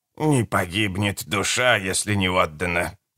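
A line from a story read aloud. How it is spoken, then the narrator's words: Hissed. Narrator (Russian): прошипела ведьма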